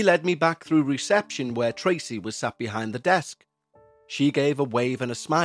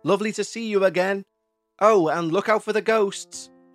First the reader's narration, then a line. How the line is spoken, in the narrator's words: she shouted